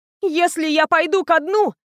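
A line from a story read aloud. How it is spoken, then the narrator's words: Shouting. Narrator (Russian): кричала Рен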